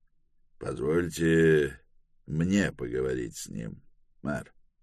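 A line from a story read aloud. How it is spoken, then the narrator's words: Whisper. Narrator (Russian): Кадел прошептал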